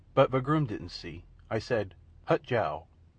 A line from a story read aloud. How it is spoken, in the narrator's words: said calmly